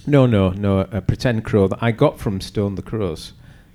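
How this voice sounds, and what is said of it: Barnsley accent. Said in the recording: “said that in a very good Barnsley accent”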